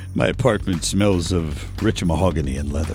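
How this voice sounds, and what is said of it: Impersonates a comedic movie anchorman voice. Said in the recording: “When you do an impersonation, your go-to accent is Ron Burgundy”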